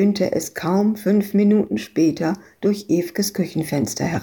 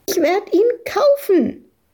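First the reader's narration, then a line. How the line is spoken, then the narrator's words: Shrieking over someone. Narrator (German): kreischte Madita dagegen an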